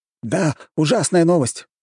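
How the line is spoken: Exclaimed. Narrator (Russian): воскликнул кто-то из советников

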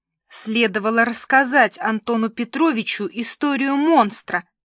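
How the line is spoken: Hissing. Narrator (Russian): шипела Милка

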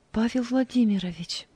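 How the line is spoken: Quiet. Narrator (Russian): тихо сказала Анита

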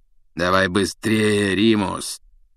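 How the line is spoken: Hoarse, hurrying. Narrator (Russian): сипло поторопил его Блэк

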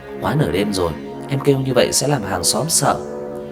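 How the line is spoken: Gentle reminder. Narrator (Vietnamese): Tần Cẩm dịu dàng nhắc nhở

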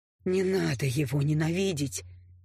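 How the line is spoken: Quiet. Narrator (Russian): тихо сказал Скай

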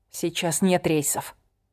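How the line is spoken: Quiet objection. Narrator (Russian): тихо возразила

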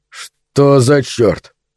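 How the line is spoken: Muttering. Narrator (Russian): пробормотал он

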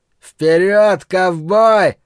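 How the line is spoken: Yelling. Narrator (Russian): завопил Ллойд

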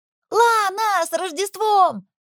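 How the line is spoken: Children shouting happily. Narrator (Russian): крикнули дети с довольными улыбками

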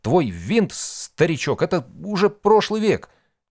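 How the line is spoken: Stuttering explanation, young man. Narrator (Russian): Чуть заикаясь, втолковывал долговязый парень

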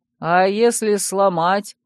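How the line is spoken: Lazy reply from behind. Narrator (Russian): лениво отозвался кто-то со спины

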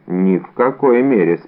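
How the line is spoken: Calm. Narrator (Russian): спокойно сказал Атос

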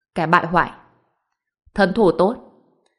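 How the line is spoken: Cold laugh, then speaking. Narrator (Vietnamese): Hàn Đông cười lạnh lùng một tiếng, nói

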